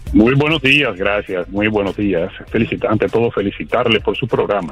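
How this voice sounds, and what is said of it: Radio announcer voice. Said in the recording (Spanish): “con esa voz de locutor.”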